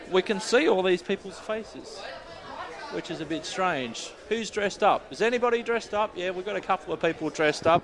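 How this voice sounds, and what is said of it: Australian English accent. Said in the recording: “the Australian accent”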